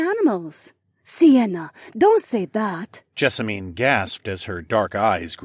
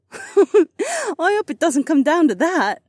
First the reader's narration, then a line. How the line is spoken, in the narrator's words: Sienna laughed